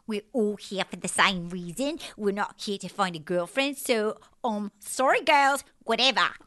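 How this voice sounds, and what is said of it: Impression of Nicole. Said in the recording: “that was like ... doing an impression of Nicole”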